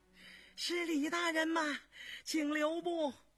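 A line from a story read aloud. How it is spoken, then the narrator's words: Breathless shouting while running. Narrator (Chinese): 喘吁吁跑过来一个中年太监，一头跑一头喊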